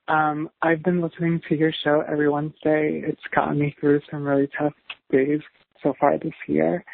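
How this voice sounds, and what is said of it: Strained, rough voice. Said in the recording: “my voice is a little shot. I'm having some pain in my throat.”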